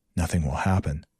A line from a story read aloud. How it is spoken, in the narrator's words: I muttered to myself